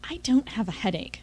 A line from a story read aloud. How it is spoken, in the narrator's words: I hissed